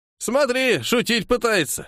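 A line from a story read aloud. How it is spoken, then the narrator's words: Old man's chuckle. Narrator (Russian): хмыкнул дед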